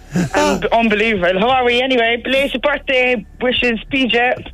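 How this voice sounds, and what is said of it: Irish Cork accent. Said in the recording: “That sounds like a Cork accent.”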